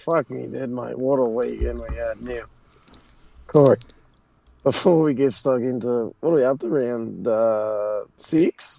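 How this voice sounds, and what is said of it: Damaged, strained voice. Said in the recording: “his voice is fucked ... this is the best you've sounded since Saturday afternoon”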